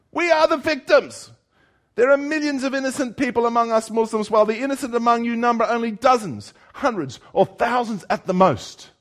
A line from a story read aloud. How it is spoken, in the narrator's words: the professor begins shouting